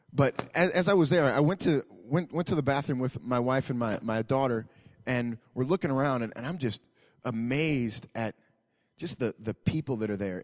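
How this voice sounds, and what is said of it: Slightly rough, hoarse voice. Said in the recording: “my voice is a little bit rough this morning. I was singing kind of loud.”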